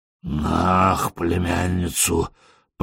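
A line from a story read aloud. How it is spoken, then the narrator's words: Moaning. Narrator (Russian): простонал мистер Лекерстин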